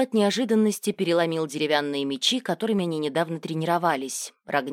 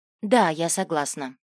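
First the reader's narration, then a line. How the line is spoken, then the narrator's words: Embarrassed, quiet. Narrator (Russian): Риса смутилась и, опустив голову, тихо сказала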